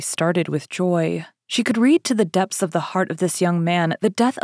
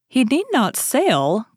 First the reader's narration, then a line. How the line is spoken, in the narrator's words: cried my lady, forgetting her usual presence of mind